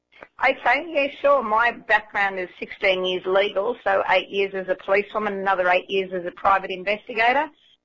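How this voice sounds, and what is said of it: Australian accent. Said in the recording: “from Down Under. You've probably picked that up already from the accent.”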